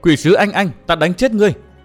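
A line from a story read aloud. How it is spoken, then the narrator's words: Girl shouting. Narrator (Vietnamese): tiếng cô bé hét hỏi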